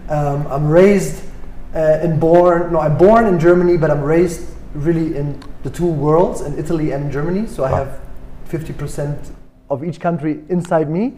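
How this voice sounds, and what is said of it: German accent in English. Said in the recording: “as you can hear, I have maybe a German accent”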